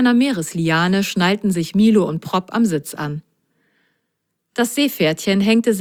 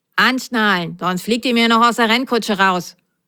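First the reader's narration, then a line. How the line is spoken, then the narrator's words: Stern. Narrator (German): sagte die Nummer 12 streng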